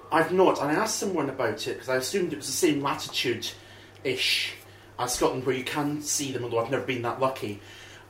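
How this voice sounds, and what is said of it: Scottish accent. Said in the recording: “Another Scottish accent.”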